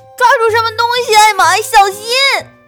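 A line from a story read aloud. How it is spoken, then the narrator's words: Shouting. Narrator (Chinese): 韦伯叫道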